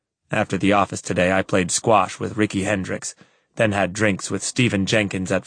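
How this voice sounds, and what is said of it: Usual voice. Nothing is said of it.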